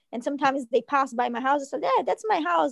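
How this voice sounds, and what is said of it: Non-local accent. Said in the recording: “probably by my accent, you're not from here”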